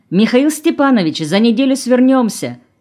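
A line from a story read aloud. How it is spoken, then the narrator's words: Shouting from kitchen. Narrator (Russian): крикнула из кухни Женя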